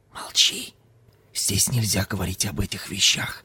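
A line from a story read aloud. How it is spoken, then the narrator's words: Whisper. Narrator (Russian): зашептал Ким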